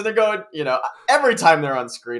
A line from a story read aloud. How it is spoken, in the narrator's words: I laugh